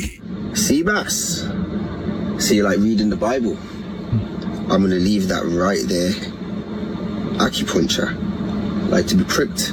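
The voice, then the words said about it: Fun put-on accent. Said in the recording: “fun accent”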